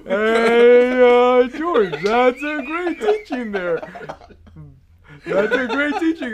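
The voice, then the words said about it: Yogi Bear-like cartoon voice. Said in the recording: “this is my best Mac Rice impersonation ... You just sounded like Yogi Bear”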